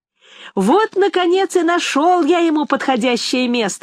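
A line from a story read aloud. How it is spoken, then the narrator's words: Exclaimed. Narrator (Russian): воскликнул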